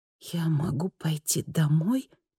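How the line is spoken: Whisper. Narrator (Russian): прошептала она

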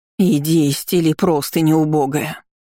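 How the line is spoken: Hiss. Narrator (Russian): прошипела тетка

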